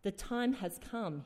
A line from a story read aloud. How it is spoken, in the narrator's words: he said